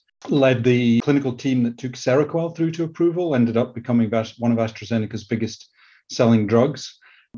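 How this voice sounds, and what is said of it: Scottish accent. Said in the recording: “that you can probably tell from my Scottish accent.”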